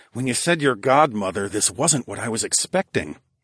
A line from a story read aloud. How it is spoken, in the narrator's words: I murmured in awe